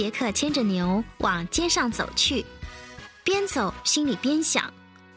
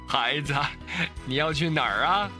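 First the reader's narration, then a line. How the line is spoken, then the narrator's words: Cheerful old man, grinning. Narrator (Chinese): 一个看起来很滑稽的老公公，他笑嘻嘻地说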